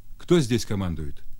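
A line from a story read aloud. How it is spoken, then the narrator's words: Stern question. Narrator (Russian): спросил он, строго глядя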